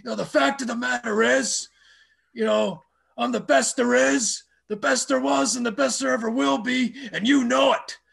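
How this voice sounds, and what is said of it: Imitates a wrestler's voice. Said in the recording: “Just try and do the impressions.”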